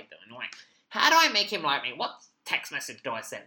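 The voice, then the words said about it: Imitates people who email him. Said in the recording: “That's my impression of people that email me”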